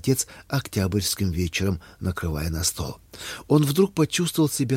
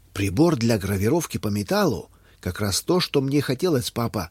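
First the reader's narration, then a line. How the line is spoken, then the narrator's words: Joyful exclamation. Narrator (Russian): радостно воскликнул Юстин, увидев подарок, лежащий возле его тарелки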